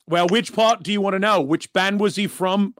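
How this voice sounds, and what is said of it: Put-on English accent. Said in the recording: “I'm going English instead of Australian. I can't do an Aussie accent.”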